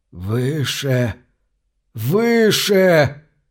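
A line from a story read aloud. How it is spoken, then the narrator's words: Groaning, miserable. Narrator (Russian): стонал несчастный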